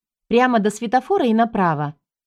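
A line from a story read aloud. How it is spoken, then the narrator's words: Cheerful command. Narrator (Russian): бодро скомандовала я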